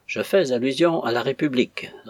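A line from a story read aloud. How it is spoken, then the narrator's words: Firmer than usual. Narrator (French): répondit Cévola d'une voix plus ferme que d'ordinaire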